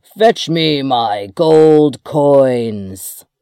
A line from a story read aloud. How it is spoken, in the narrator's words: he roared